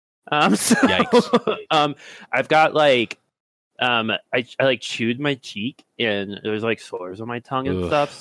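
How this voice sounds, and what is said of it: Messed-up, awkward tongue speech. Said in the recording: “for those of you at home, you probably already hear it. My voice is a little messed up ... the only way I can talk is if I push up against my teeth, so my tongue is skinnier, so it doesn't hit the sides of my mouth as I talk”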